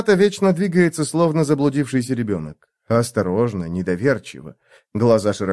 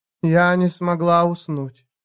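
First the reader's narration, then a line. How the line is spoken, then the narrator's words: Plain. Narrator (Russian): сказала она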